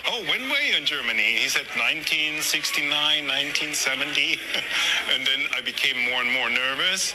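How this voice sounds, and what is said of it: German accent. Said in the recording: “I hear an accent. Where's your accent for? I said, from Germany.”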